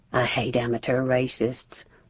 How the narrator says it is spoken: Sarah mumbled

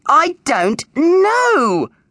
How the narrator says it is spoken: yelled Ms

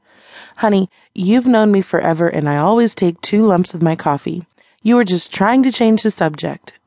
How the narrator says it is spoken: Meg said

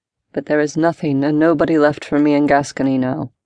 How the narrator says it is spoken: said in a flat tone

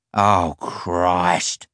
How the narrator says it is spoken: Simon groaned

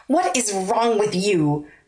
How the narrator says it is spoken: snarled

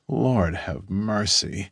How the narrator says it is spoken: He groans

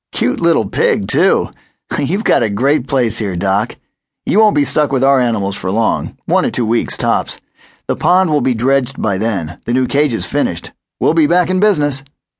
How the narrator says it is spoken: When he quit laughing, Terry said

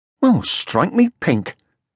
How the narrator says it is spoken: exclaimed Moomin Troll

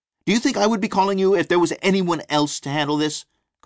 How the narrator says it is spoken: Carlene yelled

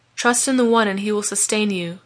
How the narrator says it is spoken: replied Patrick soothingly

